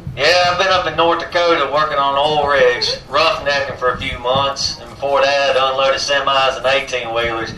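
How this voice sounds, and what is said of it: Distinct Southern US accent. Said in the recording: “You have a very distinct southern voice, a very distinct accent.”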